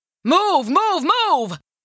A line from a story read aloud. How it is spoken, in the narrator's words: she heard Grandpa Jack yelling in the distance